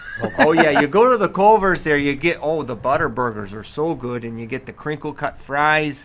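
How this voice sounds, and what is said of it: Put-on Wisconsin accent. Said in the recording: “I love your guys' Wisconsin accent.”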